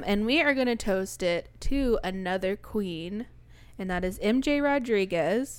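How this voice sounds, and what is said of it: Congested, stuffy voice. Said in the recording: “my voice sounding like a giant booger”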